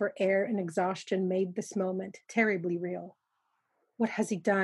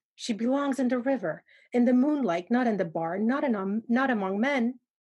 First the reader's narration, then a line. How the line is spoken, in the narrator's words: Stashek blurted out panically, finding his voice again